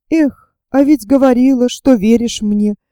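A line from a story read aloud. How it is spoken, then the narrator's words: Replied sadly. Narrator (Russian): Грустно ответил ей Иван Алексеевич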